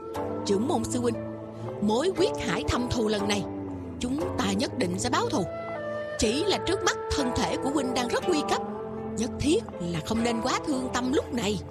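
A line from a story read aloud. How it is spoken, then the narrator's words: Grief-stricken, lowered voice. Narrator (Vietnamese): Trên mặt Điền Bất Dịch có vẻ bi phẫn, hạ giọng nói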